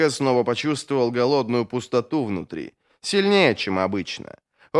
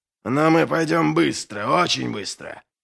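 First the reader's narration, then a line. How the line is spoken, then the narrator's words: Growled. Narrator (Russian): прорычал Доу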